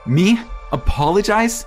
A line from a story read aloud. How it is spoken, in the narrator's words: shouted